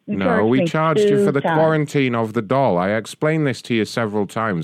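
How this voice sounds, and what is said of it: British accent. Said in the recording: “you've got a British accent”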